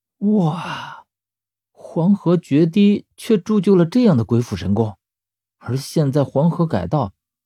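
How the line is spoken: Awed exclamation. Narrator (Chinese): 十三也忍不住感叹

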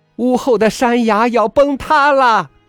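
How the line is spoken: Loud shouting. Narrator (Chinese): 婆婆也大声叫嚷起来

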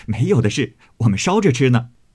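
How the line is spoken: Laughing. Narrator (Chinese): 宝玉笑道

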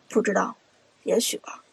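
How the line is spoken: Low, despairing. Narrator (Chinese): 朱浩已经面如死灰了，低声说道

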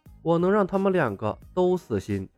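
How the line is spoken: Lowered voice. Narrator (Chinese): 李牧压低了声音说道

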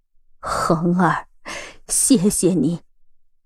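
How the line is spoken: Old woman, slightly trembling voice. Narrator (Chinese): 赵老太太第一次声音微颤着说道

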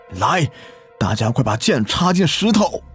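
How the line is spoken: Shouting. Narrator (Chinese): 村长大喊

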